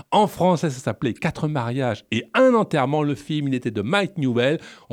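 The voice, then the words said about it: French spoken with English accent. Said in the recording (French): “Vous devrez vous habituer à mon accent anglais pendant toute cette émission, donc munissez-vous de boules si vous le souhaitez”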